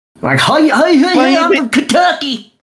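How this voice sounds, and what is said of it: Mocking exaggerated Southern accent. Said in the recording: “bullshit southern accent.”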